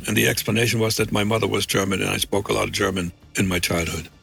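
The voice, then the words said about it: Near-American accent with faint German trace. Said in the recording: “Does he sound like a German to you? ... my accent was small enough to hold up with an explanation ... your accent is pretty convincing”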